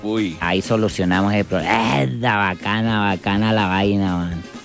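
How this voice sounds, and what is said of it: Venezuelan coastal accent, sounds odd. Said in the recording (Spanish): “Ese acento me parece como raro. ... Es la costa de Venezuela.”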